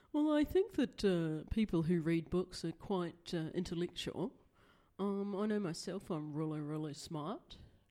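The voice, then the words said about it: Unconvincing put-on posh voice. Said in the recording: “That was me trying to do a posh voice ... That was your idea of a posh voice. ... That was a terrible posh voice.”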